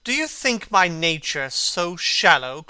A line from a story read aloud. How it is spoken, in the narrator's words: cried Dorian Gray angrily